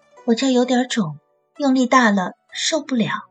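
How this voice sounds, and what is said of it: Quiet, hushed speaking. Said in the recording (Chinese): “小声说”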